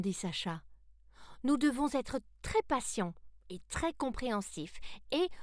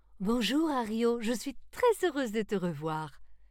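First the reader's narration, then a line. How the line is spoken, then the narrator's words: Exclaimed. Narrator (French): s'exclama-t-elle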